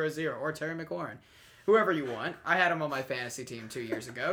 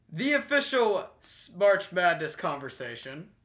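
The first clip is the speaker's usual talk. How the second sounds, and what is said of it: Announcer-style voice. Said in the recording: “announcer voice”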